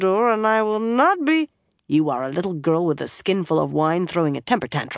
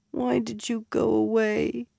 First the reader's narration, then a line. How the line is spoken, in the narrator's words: She mumbled into his chest